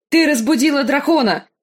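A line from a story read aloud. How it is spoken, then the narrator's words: Shout. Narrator (Russian): крикнул Визерис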